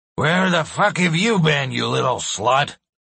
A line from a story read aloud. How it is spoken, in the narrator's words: He slurs